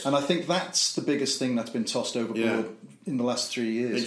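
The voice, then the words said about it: Slight Liverpool accent. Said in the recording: “you've got a bit of a Liverpool accent ... You still haven't lost it.”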